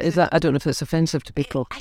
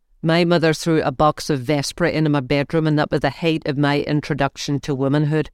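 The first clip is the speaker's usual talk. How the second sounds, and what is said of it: Put-on Northern Irish accent. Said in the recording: “Try a wee bit the accent. ... I'm very good at the Northern Ireland accent. ... Stop it, I'm good at it.”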